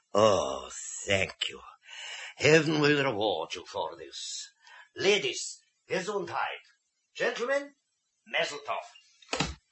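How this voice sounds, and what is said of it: German accent. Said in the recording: “talks with a German accent”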